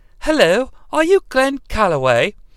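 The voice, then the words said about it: Female voice with English accent. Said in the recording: “all the women are going to sound like they're from England, folks, because that's the only way I can do a female voice.”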